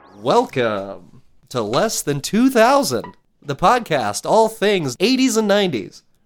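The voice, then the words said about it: Put-on radio announcer voice. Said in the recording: “Why do you do that voice? ... Well, it's the radio.”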